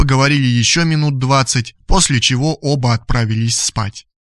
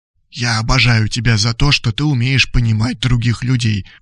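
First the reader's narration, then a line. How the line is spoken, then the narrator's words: Loud whisper. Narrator (Russian): прошептал громко Радислав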